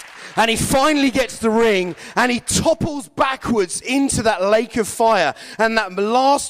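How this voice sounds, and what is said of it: Usual voice. Nothing is said of it.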